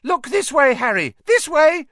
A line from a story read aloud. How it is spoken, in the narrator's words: he cried shrilly